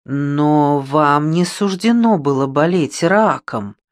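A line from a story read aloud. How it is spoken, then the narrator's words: Drawled. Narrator (Russian): протянула Катя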